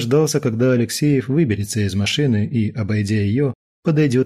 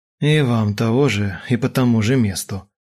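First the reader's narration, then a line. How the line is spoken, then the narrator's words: Grumbling. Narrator (Russian): Буркнул следователь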